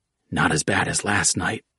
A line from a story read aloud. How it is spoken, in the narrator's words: Culprit whispered, desperate to find some good